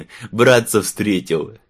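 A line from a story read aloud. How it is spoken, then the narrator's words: Tipsy guffaw. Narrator (Russian): хохотнул подвыпивший нотариус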